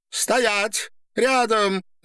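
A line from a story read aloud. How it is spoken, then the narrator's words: Shouting while struggling. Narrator (Russian): закричала Дина, борясь с собакой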